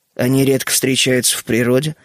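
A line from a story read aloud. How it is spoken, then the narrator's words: Calm remark. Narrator (Russian): спокойно заметил Генри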